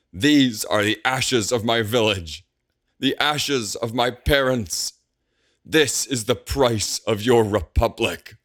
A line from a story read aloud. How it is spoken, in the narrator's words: shouts